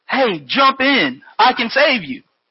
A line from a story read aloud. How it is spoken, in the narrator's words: the fellow shouted to the man on the roof